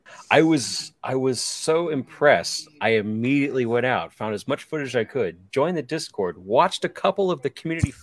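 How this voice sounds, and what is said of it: Sick voice, deeper than normal. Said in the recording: “right as I got sick ... My voice is a little deeper than normal.”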